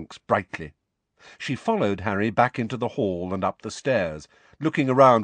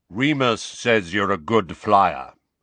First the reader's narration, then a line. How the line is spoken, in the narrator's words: said Kingsley Shacklebolt in his deep voice